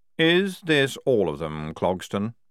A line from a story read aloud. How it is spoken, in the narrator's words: he said